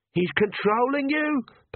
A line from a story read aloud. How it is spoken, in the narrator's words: Perdita screamed